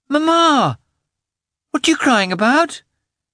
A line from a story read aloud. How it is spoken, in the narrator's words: exclaimed in a fretful voice